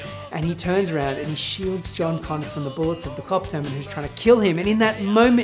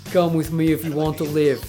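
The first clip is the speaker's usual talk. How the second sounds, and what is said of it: Bad Arnold Schwarzenegger impression. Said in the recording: “Very bad Arnie impersonation.”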